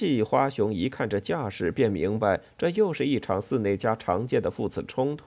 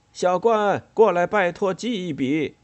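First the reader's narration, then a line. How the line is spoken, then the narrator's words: Calling from outside. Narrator (Chinese): 花熊在院门外叫起冠太郎来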